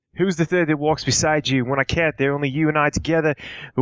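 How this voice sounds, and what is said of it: Put-on Australian accent, reciting poetry. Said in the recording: “Why do I have an accent? I'm just kind of stuck in it. ... I just wanted to do the wasteland in an Aussie accent.”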